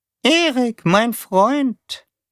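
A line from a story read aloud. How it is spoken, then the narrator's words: Squeaky monotone voice. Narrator (German): sagte Taube mit seiner piepsigen, eintönigen Stimme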